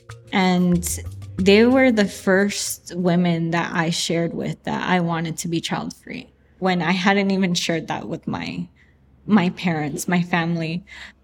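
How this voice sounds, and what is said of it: Choked up, emotional voice. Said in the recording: “I'm sorry I'm getting choked up”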